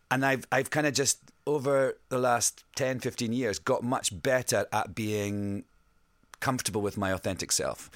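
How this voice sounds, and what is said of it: Scottish accent. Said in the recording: “I sing in my own voice as well, I sing with my Scottish accent.”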